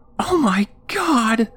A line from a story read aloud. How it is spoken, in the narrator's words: Joan shrieked